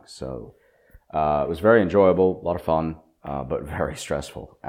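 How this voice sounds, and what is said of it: Sick-sounding voice. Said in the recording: “I've just been sick for the last week. And you can hear it in my voice. You probably can hear it in my voice. I sound like crap.”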